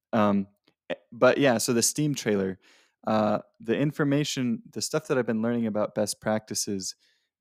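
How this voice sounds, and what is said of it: Voice sounds sick. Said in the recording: “my voice is still not great. I'm still sick.”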